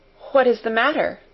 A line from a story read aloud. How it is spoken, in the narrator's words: asked, with mildly quavering speech